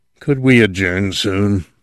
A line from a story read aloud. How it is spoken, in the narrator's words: Addison Doug said in a hoarse, strangling voice